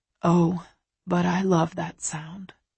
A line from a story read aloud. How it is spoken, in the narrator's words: he says a little sadly, his voice low